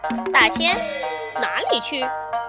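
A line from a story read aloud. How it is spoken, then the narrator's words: Plain. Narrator (Chinese): 赤脚大仙说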